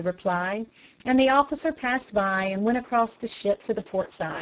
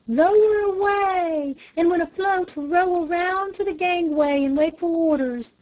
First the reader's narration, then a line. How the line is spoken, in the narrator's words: shouted